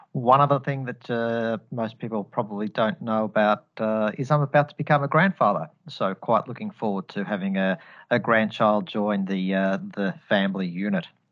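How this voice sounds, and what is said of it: Australian accent, Australian twang. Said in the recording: “I'm Australian born and bred, hence the accent. So apologies if you are hearing an Australian twang”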